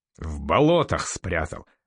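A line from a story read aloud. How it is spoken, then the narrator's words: Chuckling. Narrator (Russian): хохотнул норвежец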